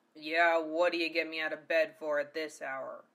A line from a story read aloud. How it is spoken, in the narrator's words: grumbled